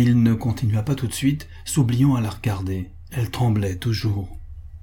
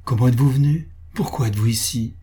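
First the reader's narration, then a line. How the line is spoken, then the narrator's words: Exalted tone. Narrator (French): répéta-t-elle d'un ton exalté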